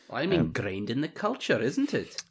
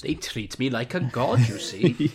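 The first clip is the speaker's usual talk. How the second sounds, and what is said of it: Put-on Welsh accent. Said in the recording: “you could probably say this in a good Welsh accent”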